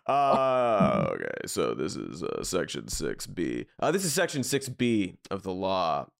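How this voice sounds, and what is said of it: Formal legal reading voice. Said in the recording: “Give me a law voice. ... Yeah, something in that.”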